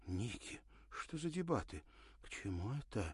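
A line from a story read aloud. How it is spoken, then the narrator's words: Uneasy whisper. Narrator (Russian): прошептала Ирина, почувствовав беспокойство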